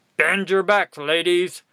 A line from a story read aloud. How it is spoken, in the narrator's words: barked the quartermaster